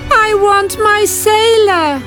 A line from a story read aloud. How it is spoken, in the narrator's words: The mermaid cried again